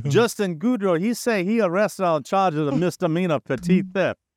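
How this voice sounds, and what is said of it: Put-on Cajun accent. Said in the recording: “now I just have to do my Cajun accent.”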